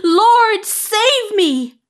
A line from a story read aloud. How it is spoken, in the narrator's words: He cried out